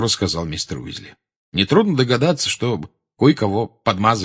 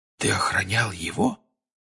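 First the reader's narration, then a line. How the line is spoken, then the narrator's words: Quiet question. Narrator (Russian): тихо спросил Джордж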